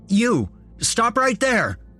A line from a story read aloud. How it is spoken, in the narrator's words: I shouted